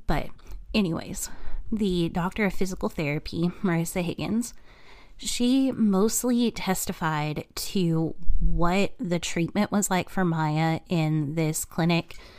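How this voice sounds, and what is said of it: Slightly off, sick-sounding voice. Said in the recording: “my voice is kind of weird ... I am 90% sure that I am coming down with a cold”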